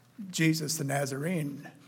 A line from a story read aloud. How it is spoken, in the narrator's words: they replied